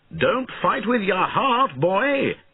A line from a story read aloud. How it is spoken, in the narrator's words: shouted Bowen